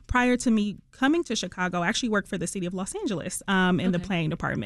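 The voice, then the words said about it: Detroit accent. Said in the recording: “I heard that accent. ... people from Detroit say Detroit very differently. ... We say it a little, we put a spice on it.”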